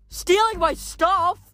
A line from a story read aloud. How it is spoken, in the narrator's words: Leo yelled